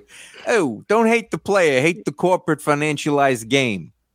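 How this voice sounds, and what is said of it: Put-on Brooklyn accent. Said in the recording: “I'm Brooklyn ... I have to do this in the accent”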